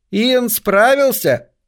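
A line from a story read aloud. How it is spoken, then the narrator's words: Girl's excited shout. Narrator (Russian): крикнула какая-то девица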